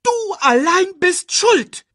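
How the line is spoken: Shrieking accusation. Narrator (German): kreischte Timon Nala an

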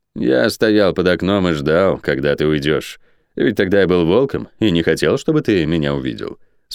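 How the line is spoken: Calm. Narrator (Russian): спокойно ответил Тиес

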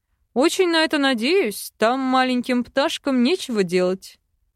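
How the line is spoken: Man's snorting chuckle. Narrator (Russian): хмыкнул мужчина

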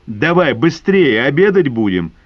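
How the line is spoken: Loud call. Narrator (Russian): громко позвал Засекин

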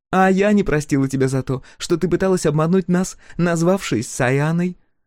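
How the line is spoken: Laughing. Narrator (Russian): рассмеялась Маури

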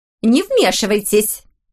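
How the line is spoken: Sharp shout. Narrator (Russian): прикрикнула на него миссис Уильямс

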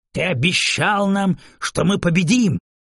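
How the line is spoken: Angry yelling. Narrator (Russian): зло орал Крамарь

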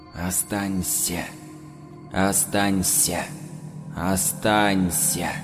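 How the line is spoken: Quiet pleading chorus. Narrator (Russian): Знакомые соседи, друзья по смене, все они тихо упрашивали

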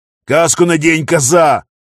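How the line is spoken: Roaring soldier. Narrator (Russian): взревел пограничник

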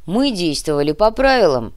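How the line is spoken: Snapping retort. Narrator (Russian): огрызнулся дружинник

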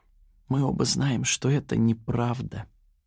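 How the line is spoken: Whispered. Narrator (Russian): прошептала Яна

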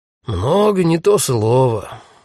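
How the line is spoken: Sighing. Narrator (Russian): вздохнул полицейский

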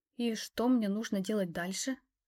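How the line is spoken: Quiet question. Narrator (Russian): Спросила тихо

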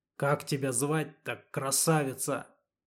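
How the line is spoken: Hoarse wheeze. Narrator (Russian): прохрипел Леха, сплюнув кровь

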